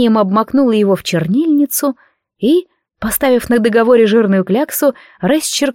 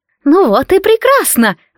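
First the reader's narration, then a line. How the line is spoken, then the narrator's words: Exclamation. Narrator (Russian): воскликнула мадам Корнелия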